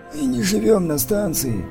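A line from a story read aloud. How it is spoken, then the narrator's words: Sorrowful sigh. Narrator (Russian): горестно вздохнул тот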